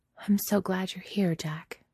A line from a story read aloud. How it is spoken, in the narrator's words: she says, very quietly